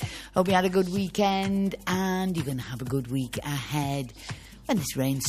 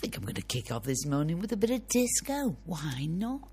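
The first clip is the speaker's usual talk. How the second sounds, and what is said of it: Put-on strong Scouse accent. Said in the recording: “Said that in a very Scouse accent.”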